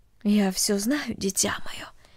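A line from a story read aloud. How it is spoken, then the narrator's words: Mother's quiet voice. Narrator (Russian): тихо сказала мать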